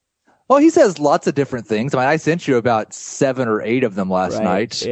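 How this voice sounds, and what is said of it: Usual voice. Nothing is said of it.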